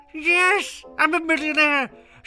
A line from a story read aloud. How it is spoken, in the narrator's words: shouted Mr